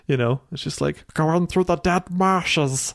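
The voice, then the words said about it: Gollum character voice. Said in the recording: “do my Gollum voice.”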